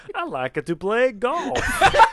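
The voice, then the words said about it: Put-on Italian accent, sounds Eastern European. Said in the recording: “Turn Italian for a second ... Say something else with that Italian accent ... Somehow that sounds more like Eastern European.”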